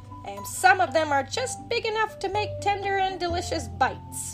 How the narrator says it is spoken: Bugs told himself happily

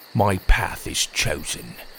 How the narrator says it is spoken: he said sadly

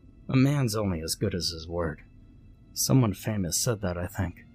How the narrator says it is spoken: muttered

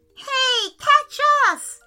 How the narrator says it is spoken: yelled

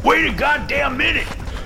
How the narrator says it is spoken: Landry shouts from behind

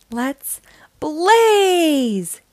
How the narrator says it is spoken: he shouted

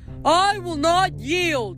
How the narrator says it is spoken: Ephialtes roared

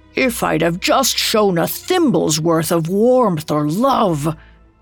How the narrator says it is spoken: He groaned in despair

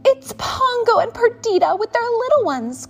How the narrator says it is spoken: cried Nanny

